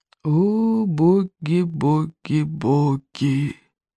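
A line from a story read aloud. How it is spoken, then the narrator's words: Muttered whisper. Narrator (Russian): шептал один клык себе под нос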